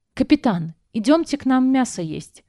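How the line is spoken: Shouted. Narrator (Russian): крикнула

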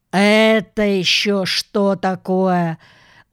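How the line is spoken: Surprised stern policeman. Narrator (Russian): удивился первый полицейский, строго

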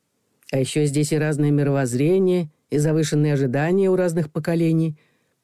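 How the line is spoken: Soft. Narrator (Russian): мягко произнес Макар

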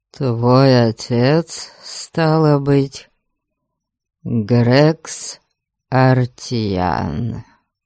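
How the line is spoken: Drawling, assertive question. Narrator (Russian): Скорее утвердительно, чем вопросительно протянул Гарольд

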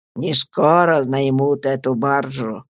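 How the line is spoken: Muffled, hollow voice. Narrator (Russian): проговорил мистер Пиготи глухим голосом

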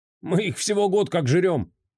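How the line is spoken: Snorting. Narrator (Russian): хмыкнул повар

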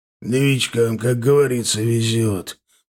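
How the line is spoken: Displeased grumble. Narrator (Russian): пробурчал он недовольно

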